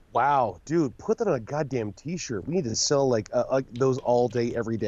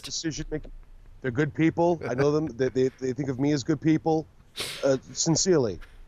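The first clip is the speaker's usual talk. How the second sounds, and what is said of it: Poor imitation of another person's voice. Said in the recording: “This is like the worst Donald Trump impersonation ever.”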